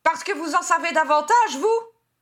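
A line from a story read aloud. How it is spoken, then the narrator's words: Yelled. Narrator (French): hurla Edmund défiant Harry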